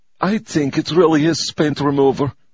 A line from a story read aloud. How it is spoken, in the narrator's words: said gloomily